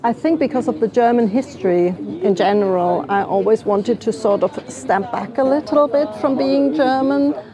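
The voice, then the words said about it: British accent. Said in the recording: “So you have a sweet British accent.”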